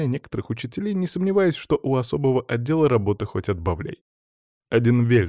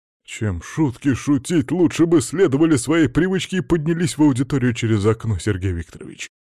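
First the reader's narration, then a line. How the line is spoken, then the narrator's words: Grumbling. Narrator (Russian): ворчал Палыч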